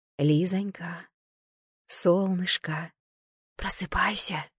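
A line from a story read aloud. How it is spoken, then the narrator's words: Quiet call. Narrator (Russian): Позвала тихо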